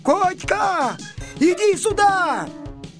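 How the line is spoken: Shouted. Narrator (Russian): закричал

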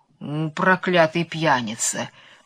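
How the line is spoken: Grumbling under breath. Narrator (Russian): проворчал про себя сеньор Помидор

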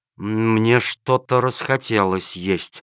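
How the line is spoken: Stunned, gulping mutter. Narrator (Russian): пробормотал начальник полиции, глотая слюну и понемногу приходя в себя от изумления

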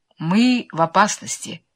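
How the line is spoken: Calm. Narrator (Russian): спокойно произнес мистер Моркоу

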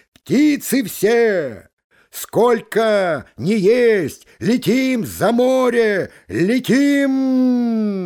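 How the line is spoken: Gander calling out. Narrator (Russian): гусак крикнул

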